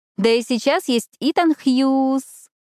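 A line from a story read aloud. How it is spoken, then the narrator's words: Drawn-out final syllable. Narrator (Russian): Эшли протянула последний слог фамилии плюшевого олененка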